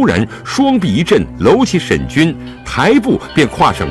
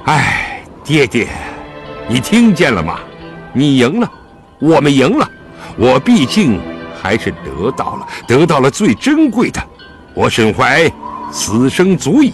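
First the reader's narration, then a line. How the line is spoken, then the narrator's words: Long sigh. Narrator (Chinese): 沈怀蔚然长叹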